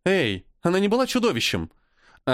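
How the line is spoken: Calling out. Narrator (Russian): окликнула его Эйни

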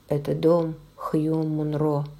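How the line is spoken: Low voice. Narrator (Russian): вполголоса сказал он

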